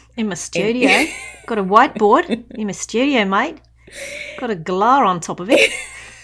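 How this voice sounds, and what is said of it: Exaggerated Australian accent. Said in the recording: “sound very Australian”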